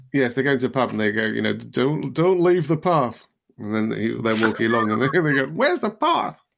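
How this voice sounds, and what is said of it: Mixed put-on Yorkshire and American accents. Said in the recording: “Where do they come from with that accent? ... Using all my full gamut of accents, Yorkshire and American, all in one little, and a bit of werewolf. ... It was my Darlington accent.”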